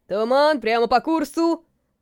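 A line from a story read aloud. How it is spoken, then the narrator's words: Lookout shouting. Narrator (Russian): крикнул вперед смотрящий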